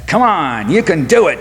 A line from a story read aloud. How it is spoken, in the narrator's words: shouted a well-wisher from the crowd behind us